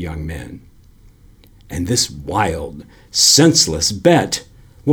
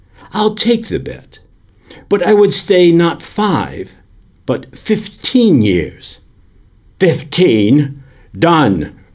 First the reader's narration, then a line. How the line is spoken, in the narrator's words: cried the banker